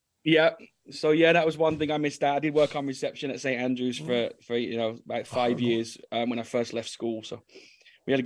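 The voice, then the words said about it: Birmingham Brummie English accent. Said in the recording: “you've not lost your Brummie accent,”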